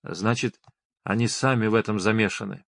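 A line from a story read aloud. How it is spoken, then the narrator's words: Mutter. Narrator (Russian): пробормотал судья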